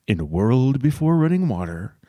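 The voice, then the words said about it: Deep movie-trailer radio voice. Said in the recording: “radio voice? I'm using mine right now ... Drop your voice into the back of your throat and push air out with your diaphragm. Then let your voice drop and rise”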